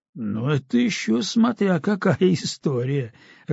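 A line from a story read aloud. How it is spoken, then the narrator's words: Laughing. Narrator (Russian): рассмеялся Усиков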